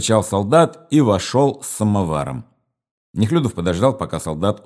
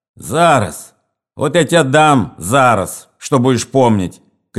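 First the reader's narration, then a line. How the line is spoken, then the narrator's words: Angry officer shouting. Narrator (Russian): крикнул офицер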